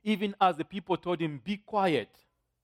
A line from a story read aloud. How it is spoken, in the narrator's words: he shouted even louder